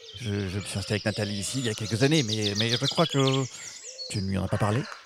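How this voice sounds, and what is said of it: Very strong Italian accent. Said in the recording (French): “j'ai un accent italien très, très prononcé”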